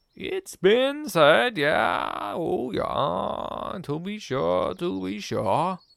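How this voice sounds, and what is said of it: Strange, inconsistent put-on accent. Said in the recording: “You've got quite a strange accent, haven't you? ... Almost like over the last few weeks you forgot what accent you were meant to have.”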